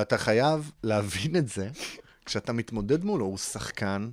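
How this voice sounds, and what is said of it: Usual voice. Nothing is said of it.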